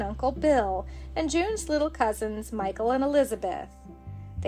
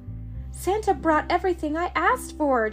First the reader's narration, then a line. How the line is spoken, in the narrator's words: June said happily